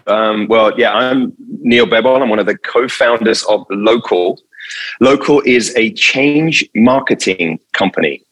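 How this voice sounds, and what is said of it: European accent. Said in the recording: “you can hear from my accent. ... I'm definitely not from here. So back in Europe too.”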